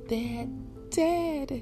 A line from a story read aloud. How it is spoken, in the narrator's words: she shouted